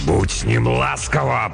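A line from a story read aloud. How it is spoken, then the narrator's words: Growled. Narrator (Russian): прорычал монгол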